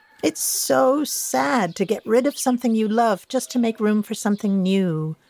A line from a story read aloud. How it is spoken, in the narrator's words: Charlie sighed